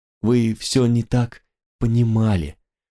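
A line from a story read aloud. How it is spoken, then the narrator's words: Crestfallen voice. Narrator (Russian): произнесла упавшим голосом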